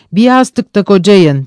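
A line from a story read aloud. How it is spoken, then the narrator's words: Shouted. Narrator (Turkish): diye bağırdı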